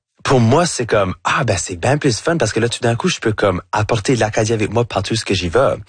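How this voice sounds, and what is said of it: Acadian French accent. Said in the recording (French): “je me sens super acadien ... votre accent acadien ... j'ai un accent qui va jamais être neutre”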